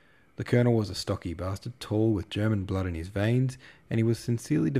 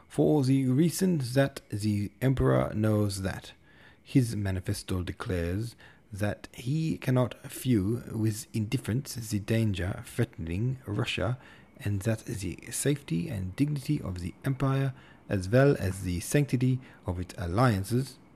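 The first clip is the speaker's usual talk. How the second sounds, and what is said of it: Put-on German accent. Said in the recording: “speaking with a German accent”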